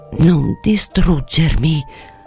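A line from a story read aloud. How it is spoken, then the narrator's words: Murmur. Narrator (Italian): mormorò ancora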